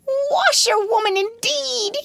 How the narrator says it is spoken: he shouted recklessly

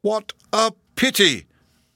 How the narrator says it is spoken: cried the kind-hearted professor

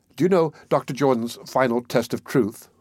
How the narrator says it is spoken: Maud asked

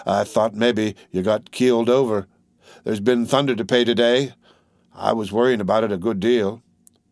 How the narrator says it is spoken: He continued in a monotonous voice

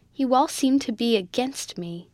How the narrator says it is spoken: she said bitterly

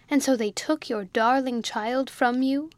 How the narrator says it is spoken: our simpleton cried out

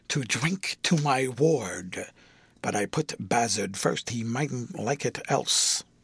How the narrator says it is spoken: Grewgious, bending aside on the cover of the other to whisper to Edwin

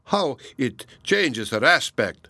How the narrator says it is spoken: exclaimed Donatello

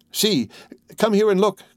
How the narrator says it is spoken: cried the old man

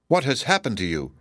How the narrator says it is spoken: exclaimed Kenyon

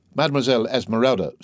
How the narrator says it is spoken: said the poet

